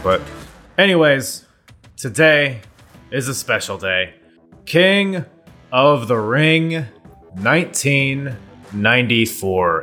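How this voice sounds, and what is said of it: Loud, near-yelling delivery. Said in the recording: “Am I yelling? I'm sorry. Am I loud? I feel like I'm yelling.”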